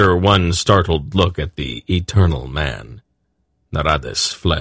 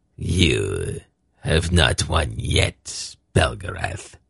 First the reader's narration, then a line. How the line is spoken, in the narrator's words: he hissed